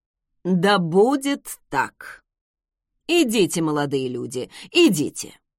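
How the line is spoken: Loud call. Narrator (Russian): громко призвал

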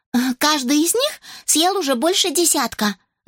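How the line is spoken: Smiling whisper in ear. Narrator (Russian): зашептала Рос на ухо мистеру Маслоу, улыбаясь

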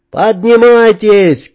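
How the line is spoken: Shouting. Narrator (Russian): крикнул я

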